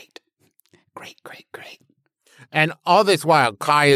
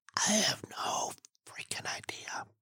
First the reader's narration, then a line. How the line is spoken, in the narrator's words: Blofeld Johnson responds in an equally sotto voce voice